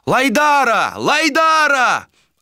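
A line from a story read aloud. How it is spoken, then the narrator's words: Loud yelling. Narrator (Russian): Орали моряки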